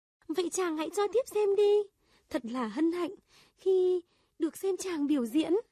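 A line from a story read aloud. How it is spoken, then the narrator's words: Joyful exclaiming. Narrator (Vietnamese): Công chúa hớn hở reo lên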